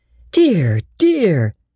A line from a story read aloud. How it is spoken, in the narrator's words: she exclaimed